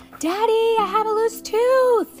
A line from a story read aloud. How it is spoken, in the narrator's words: she shouted